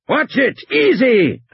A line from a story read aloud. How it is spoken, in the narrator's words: Hammond was shouting